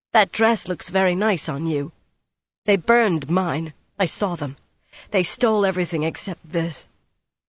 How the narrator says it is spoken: angrily, she paused, then went on in a tight voice

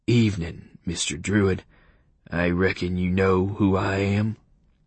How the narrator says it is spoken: said in a slow, friendly voice

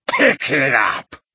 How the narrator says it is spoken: Gaunt bellowed at her

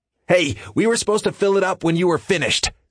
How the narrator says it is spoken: William shouts back

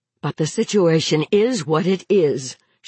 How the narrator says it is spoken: reminded herself roughly

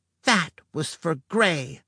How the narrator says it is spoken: she hissed

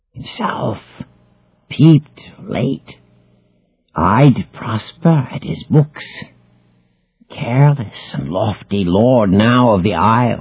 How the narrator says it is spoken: hissed Caliban

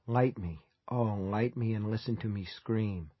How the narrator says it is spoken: seem to whisper

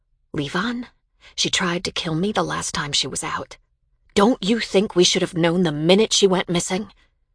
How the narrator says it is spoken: In a quieter voice, I said

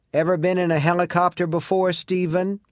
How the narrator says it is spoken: Someone shouts into my ear

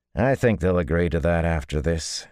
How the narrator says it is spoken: he said dryly

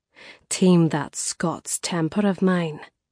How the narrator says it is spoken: she murmured

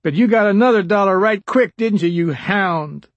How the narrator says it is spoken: Abel Hines shouted

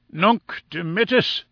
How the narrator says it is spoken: he cried at last

